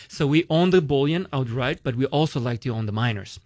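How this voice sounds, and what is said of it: Romanian accent. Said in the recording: “this is Romanian, so that's there's his accent. You get the Romanian accent”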